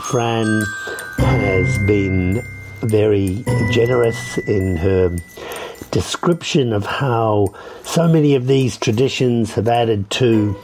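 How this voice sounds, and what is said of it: Strained, fading voice. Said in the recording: “You can tell I'm losing my voice”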